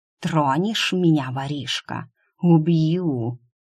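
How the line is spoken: Purring, small dragon. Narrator (Russian): Промурлыкал дракончик

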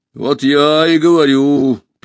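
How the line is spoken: Sad robot remark. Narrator (Russian): печально заметил робот

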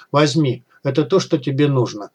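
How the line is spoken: Quiet, flat voice. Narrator (Russian): тихо, без интонации в голосе сказал гость

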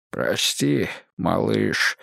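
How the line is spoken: Hoarse voice. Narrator (Russian): наконец промолвил он осипшим голосом

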